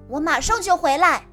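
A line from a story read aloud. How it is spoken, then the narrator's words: Loud call. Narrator (Chinese): 海马高声叫着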